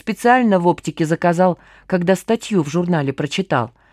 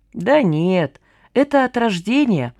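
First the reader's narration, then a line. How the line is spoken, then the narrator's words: Sad, smiling. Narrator (Russian): грустно улыбнулся Мифа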